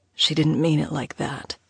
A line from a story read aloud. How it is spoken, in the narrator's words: Theodore whispered, his breath misting over her ear